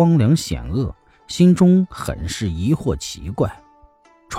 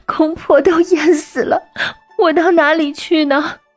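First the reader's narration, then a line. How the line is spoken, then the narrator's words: Calm but crying. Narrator (Chinese): 雨娘…也不惊慌，只是哭着说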